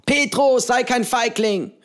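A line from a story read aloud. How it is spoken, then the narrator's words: Calling out. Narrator (German): rief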